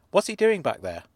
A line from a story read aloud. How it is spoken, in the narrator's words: I said